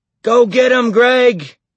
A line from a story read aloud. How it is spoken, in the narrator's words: he yelled